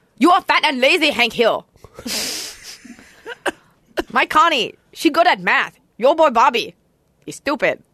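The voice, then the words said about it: Put-on Laotian accent, cartoon character. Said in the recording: “You know who has a Laotian accent? The neighbor on King of the Hill. ... it sounds just like the Vietnamese one to me.”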